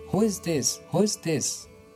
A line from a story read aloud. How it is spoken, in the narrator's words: Dead drunk, shouted